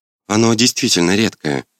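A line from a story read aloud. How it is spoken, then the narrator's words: Calm. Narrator (Russian): спокойно прокомментировала вампирша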